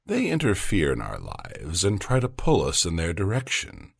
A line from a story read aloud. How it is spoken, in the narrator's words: the teacher explained gently